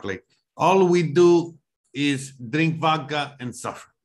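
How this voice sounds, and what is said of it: Put-on Russian accent. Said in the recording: “able to do a Russian impression ... I gotta do a Russian impression”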